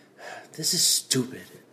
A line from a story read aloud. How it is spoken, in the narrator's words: He said under his breath